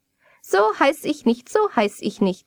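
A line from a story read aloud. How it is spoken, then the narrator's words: Little man laughing. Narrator (German): lachte das Männchen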